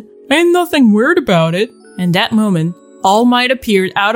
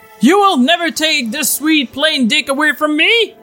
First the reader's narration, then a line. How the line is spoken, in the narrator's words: All Might shouted